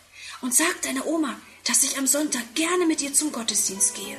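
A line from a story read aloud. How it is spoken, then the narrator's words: Whispering. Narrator (German): flüstert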